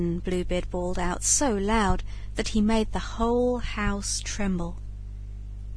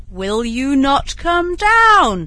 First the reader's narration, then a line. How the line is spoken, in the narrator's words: roared Bluebeard